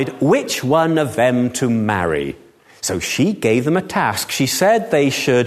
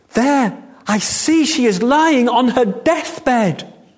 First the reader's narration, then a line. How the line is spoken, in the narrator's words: Cried